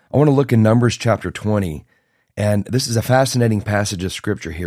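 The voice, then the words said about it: Raspy, strained voice. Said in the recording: “my voice is a little raspy. ... I may have blown my voice out a little bit”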